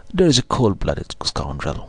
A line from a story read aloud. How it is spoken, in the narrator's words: said Holmes, laughing